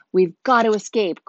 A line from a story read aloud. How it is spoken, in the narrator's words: Cole yelled